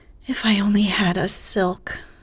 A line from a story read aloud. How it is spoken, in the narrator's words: sighed Meg